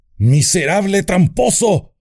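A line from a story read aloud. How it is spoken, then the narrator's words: Shouting. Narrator (Spanish): gritó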